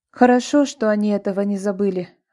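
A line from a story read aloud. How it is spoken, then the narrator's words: Sigh. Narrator (Russian): вздохнула Светка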